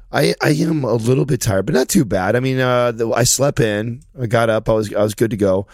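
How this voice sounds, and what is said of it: Hoarse, strained voice. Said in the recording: “I've lost my voice because I haven't been yet... voice was cracking already”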